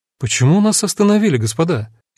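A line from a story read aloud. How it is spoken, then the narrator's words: Slightly confused question. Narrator (Russian): немного растерянно спросила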